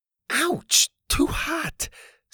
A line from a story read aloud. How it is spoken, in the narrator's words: Susie cried